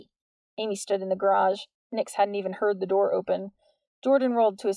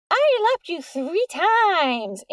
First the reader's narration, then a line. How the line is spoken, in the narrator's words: Amy screamed with glee